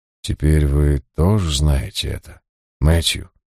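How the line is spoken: Calm question. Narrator (Russian): спокойно спросил Джайлз

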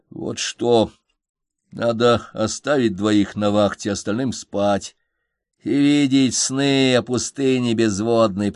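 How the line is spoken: Angry grumble. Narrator (Russian): пробурчал я тоже, злясь

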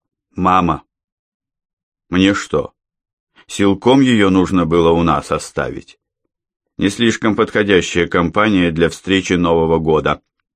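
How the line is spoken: Plain. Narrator (Russian): сказал Андрей

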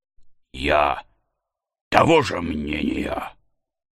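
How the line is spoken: Cold reply. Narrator (Russian): ответил холодно Недленд

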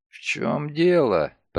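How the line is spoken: Hoarse rasp. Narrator (Russian): прохрипел Нолтон

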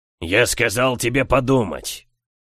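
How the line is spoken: Barking. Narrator (Russian): рявкнул Сумариус

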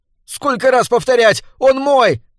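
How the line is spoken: Shrill shout. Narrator (Russian): закричал он пронзительно

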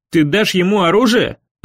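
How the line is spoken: Exclaiming. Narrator (Russian): воскликнул Дэви

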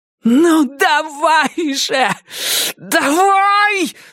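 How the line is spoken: Angry yell. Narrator (Russian): заорала Джесси, неожиданно разозлившись

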